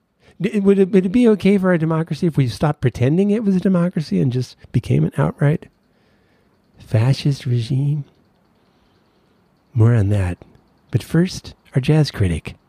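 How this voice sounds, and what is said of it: Imitates an NPR radio host voice. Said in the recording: “That's my NPR. ... my NPR imitation, I feel like I'm imitating an imitation I've already heard of NPR”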